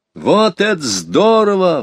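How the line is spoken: Delighted exclamation. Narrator (Russian): в восторге воскликнул Петя

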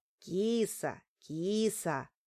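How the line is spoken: Gentle, affectionate. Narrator (Russian): ласково сказал Тимка

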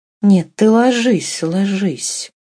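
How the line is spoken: Unsteady, altered voice. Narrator (Russian): проговорила Катерина Львовна опять изменившимся нетвердым голосом

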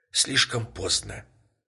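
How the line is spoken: Whispered while falling. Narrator (Russian): прошептала женщина, падая

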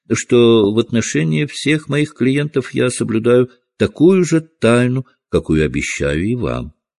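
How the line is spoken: Very courteous tone. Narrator (Russian): самым учтивым тоном произнес Холмс

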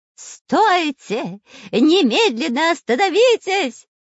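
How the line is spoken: Eerie shouting. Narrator (Russian): кричал жутким голосом шпион Дырка

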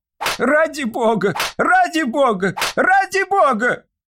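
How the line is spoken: Desperate shouting. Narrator (Russian): кричал несчастный

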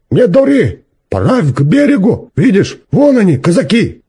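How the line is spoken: Stern shout. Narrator (Russian): Друг Трофима, Стежка Ефремов, крикнул строго

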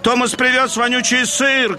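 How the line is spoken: Shouting crowd. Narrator (Russian): кричали докеры

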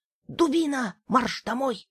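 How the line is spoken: Muffled whisper from sack. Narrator (Russian): прошептал из мешка Тимка

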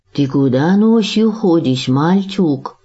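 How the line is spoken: Sleepy call, young man. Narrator (Russian): Сонно окликнул Сергея хозяин кофейной, молодой турок Ибрагим

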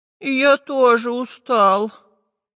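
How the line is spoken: Sigh. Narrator (Russian): вздохнул Прутик

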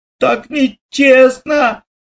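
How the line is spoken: Shouting again. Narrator (Russian): опять закричал Лешка

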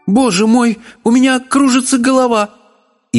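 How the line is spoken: Sudden cry. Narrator (Russian): королева ... она вскрикнула

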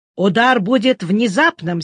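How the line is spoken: Angry. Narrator (Russian): сердито повторил Ньюстед

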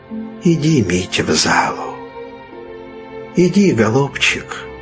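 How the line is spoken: Affectionate gentle speech. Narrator (Russian): говорил он ласково

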